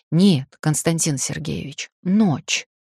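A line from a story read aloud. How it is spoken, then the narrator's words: Sudden hoarse voice. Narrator (Russian): вдруг неожиданно даже для себя сиплым голосом произношу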